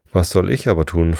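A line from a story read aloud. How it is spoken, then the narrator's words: Plain question. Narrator (German): fragte Alice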